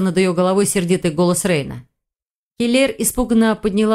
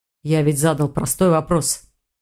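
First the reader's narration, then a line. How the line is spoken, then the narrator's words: Dragon's growl. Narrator (Russian): прорычал дракон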